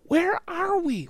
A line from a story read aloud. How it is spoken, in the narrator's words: whispered Annie